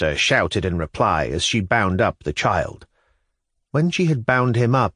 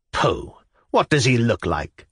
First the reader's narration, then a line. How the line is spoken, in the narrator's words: Arina Prohorovna laughed gaily in triumph